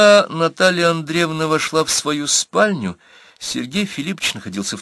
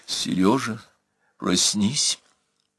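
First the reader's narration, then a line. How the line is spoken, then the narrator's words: Quiet. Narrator (Russian): сказала она негромко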